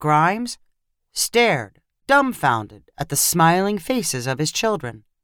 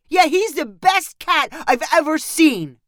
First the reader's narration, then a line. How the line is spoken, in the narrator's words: cried Lincoln